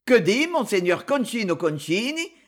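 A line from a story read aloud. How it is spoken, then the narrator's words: Sneering. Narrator (French): ricana de Luxe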